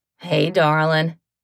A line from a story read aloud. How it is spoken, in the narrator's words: Brian drawls